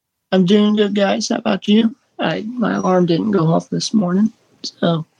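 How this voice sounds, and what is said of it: Tired, just-woken-up voice. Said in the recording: “You sound very tired.”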